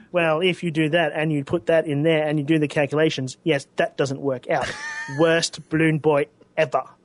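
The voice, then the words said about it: Comic Book Guy and Professor Frink voice. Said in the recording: “your comic book guy impression... It's a frinky kind of comic book guy... I took it as Professor Frink, not comic book guy. But the fact that you've combined the two”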